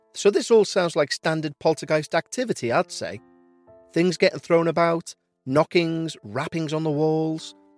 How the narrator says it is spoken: said rather excitedly

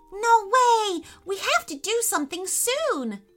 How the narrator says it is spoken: yelled Remy

